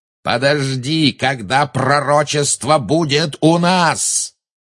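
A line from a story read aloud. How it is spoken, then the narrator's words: Roar. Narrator (Russian): взревел Малфой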